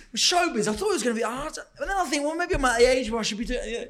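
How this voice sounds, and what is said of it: Imitates another person's voice. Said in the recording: “That is such a good impression of him. He is so like that.”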